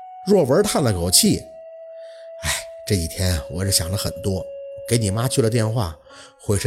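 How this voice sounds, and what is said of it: Usual voice. Nothing is said of it.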